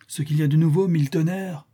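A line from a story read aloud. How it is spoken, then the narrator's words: Exclaimed. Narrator (French): s'écria-t-il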